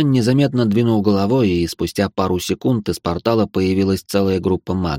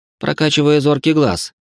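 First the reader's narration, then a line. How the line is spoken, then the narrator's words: Amused grunt. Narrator (Russian): хмыкнул Бихань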